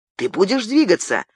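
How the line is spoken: Sharp, commanding. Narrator (Russian): Резко и повелительно обратился он к Ивонне

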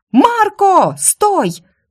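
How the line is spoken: Shout. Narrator (Russian): крикнула я

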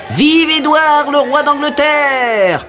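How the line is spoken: Crowd shouting. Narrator (French): criaient les badauds

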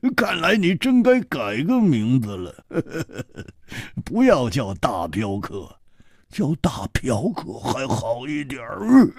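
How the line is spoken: Hearty laugh. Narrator (Chinese): 哈哈一笑

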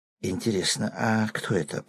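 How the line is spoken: Whisper. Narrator (Russian): прошептал кто-то

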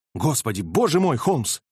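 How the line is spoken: Exclamation. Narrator (Russian): воскликнул

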